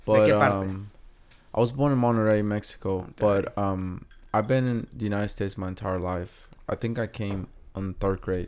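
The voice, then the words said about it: Noticeable accent. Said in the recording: “I can hear an accent.”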